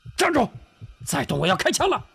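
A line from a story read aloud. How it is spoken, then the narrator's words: Shouted. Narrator (Chinese): 车夫喊道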